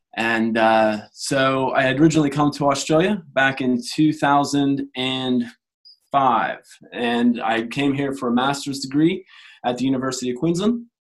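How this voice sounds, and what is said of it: American accent. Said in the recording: “as you may have been able to tell from my accent, I'm from the US, from Pennsylvania”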